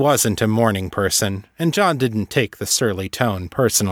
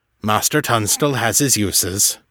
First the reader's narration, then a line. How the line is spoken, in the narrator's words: Artax admitted gruffly